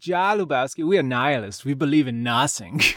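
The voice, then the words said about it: Good put-on German accent. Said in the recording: “German nihilists ... That was a great accent.”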